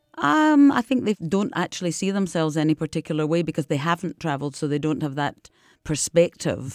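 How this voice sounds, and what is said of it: Deep Scottish accent. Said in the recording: “I've got this Scottish accent, deep accent”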